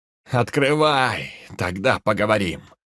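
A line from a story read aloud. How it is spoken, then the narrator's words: Barked. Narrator (Russian): рявкнул рейдер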